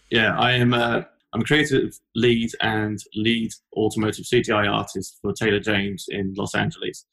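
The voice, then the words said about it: British London accent. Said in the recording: “As you can tell from my accent, I'm not from Los Angeles. I'm originally from London”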